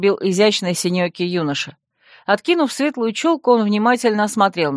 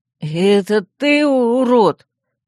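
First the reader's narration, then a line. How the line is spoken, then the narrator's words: Boy's moan. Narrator (Russian): простонал пухлый пацан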